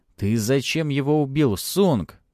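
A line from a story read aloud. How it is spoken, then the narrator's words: Almost hysterical shout. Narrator (Russian): почти истерично крикнул Антон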